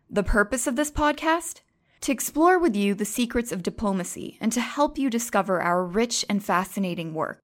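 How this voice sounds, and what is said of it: American accent. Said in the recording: “You could probably tell from the accent that I'm not French and that I'm American”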